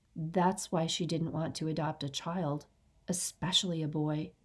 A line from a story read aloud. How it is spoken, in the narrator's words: Mike whispered